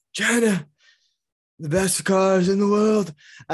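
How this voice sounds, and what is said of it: Donald Trump impression. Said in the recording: “doing a Trump impression.”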